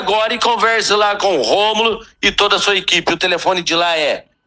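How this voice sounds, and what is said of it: Santa Catarina Brazilian Portuguese accent. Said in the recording (Portuguese): “agora com aquele sotaque catarinense. O seu é quase paranaense, né?”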